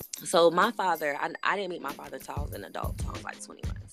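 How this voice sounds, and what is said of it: Raspy, sick-sounding voice. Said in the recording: “Excuse my voice, I'm kind of sick. ... so if I sound kind of raspy”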